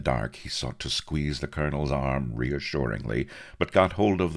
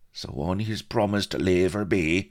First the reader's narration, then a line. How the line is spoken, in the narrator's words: the colonel sighed